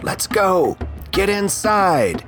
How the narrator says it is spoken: Sherlyn yell out

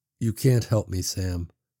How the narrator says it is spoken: she said softly

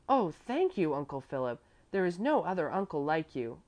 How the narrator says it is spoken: Bruno cried out in his enthusiasm

